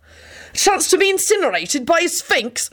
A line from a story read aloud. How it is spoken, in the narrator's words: Benji said desperately